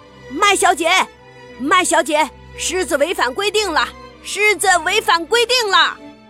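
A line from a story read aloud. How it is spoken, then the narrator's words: Calling out while walking. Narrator (Chinese): 他边走边叫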